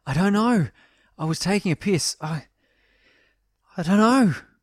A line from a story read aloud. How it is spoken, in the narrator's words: panted Marshall